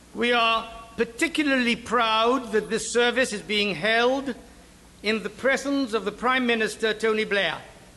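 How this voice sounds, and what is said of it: Gibraltarian English accent. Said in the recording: “this is a Gibraltar accent.”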